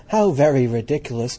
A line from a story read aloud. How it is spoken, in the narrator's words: the little lizard, who was something of a cynic, laughed outright